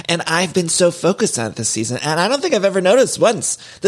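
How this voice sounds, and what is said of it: Strong Cleveland accent, hard A's. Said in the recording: “someone with a very aggressive Cleveland accent ... my A's come out really hard sometimes”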